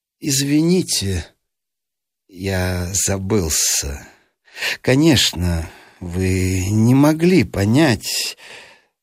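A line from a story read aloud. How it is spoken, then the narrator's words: Calm despite being stung. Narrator (Russian): видимо, задетый за живое, но ответил спокойно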